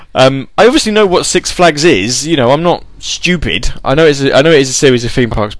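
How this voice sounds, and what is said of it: Non-American accent. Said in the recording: “listen to my accent. ... Do I sound American?”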